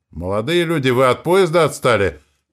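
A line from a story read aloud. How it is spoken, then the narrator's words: Female shout. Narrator (Russian): крикнула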